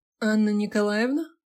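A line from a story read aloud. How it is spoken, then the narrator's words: Slightly nasal male voice. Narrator (Russian): чуть гнусавый мужской голос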